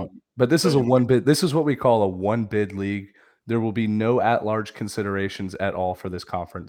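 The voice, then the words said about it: Hoarse, sick-sounding voice. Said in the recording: “I'm still still a little sick ... I'm losing my voice too”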